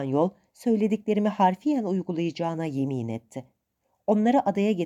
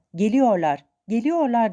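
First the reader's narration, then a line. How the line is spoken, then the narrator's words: Shouting at top of lungs. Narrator (Turkish): diye avazı çıktığı kadar bağırarak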